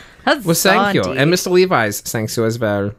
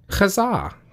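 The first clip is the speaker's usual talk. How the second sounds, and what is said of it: Put-on German accent. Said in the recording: “I'm going to say this in a German accent.”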